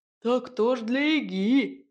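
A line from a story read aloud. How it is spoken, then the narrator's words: Chuckling. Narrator (Russian): хохотнул Бас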